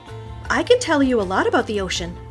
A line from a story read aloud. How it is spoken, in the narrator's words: Cynthia exclaimed